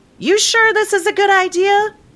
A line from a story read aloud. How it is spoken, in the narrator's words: she yelled